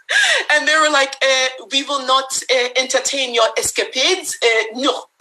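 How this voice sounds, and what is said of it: Bad put-on French accent. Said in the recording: “Excuse my really bad French accent.”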